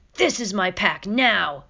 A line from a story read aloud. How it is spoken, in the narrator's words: Shadow's, he snarled